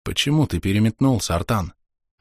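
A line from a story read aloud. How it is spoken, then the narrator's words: Quiet, hushed question. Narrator (Russian): спросил я негромко, чтобы не услышали всадники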